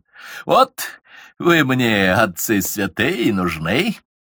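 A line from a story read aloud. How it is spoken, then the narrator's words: Mocking. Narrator (Russian): насмешливо сказал Басманов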